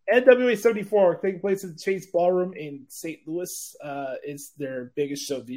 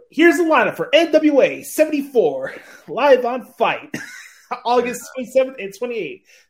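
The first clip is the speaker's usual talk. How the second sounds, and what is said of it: Imitates an interviewer's voice. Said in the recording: “I'm going to do this in my Kyle Davis impression. That's the interviewer.”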